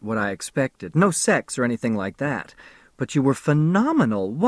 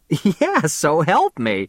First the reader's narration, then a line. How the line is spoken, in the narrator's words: she laughed